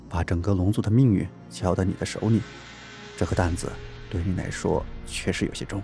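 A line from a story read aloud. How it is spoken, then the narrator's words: Soft, comforting. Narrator (Chinese): 龙葵轻声的安慰道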